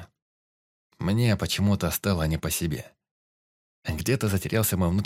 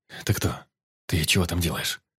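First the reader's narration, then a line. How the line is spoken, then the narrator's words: Whisper. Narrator (Russian): Я говорил шепотом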